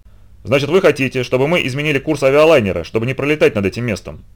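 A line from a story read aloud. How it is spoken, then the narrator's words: Plain. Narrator (Russian): спросил Рот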